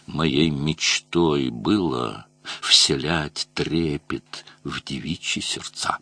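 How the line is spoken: Melodramatic villain's tragic whisper. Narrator (Russian): трагическим шепотом записного злодея из мелодрамы сообщил

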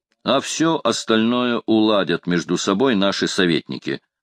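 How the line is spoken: Plain. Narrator (Russian): сказал герцог

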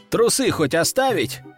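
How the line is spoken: Short chuckle. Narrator (Russian): хохотнул я

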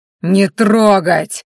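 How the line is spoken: Growled. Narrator (Russian): прорычал Ранхаш

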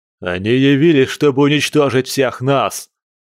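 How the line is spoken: Yelling. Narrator (Russian): орал вожак Огненный

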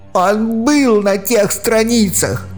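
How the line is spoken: Shouting. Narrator (Russian): закричал Эмос

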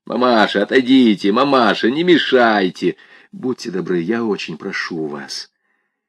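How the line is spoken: Saleswoman's rough, insistent voice. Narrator (Russian): Продавщица грубым голосом твердила

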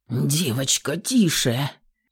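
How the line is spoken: Breathless grumbling into ear. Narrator (Russian): Захлебываясь воздухом, ворчал Илья в мое ухо

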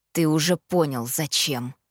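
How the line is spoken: Through clenched teeth. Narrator (Russian): процедил Итан

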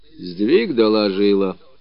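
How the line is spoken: Calm. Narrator (Russian): также спокойно ответил Родион Потапыч

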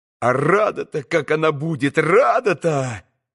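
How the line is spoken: Mutter trailing into silence. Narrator (Russian): пробормотал было, но опять примолк

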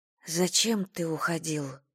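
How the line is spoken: Almost inaudible question. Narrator (Russian): спросила Айрис так тихо, что Форест мог и не услышать

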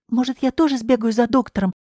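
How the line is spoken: Anxious question. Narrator (Russian): взволнованно спросила Клавдия

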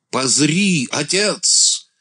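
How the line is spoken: Son suddenly shouting. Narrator (Russian): сын вдруг крикнул

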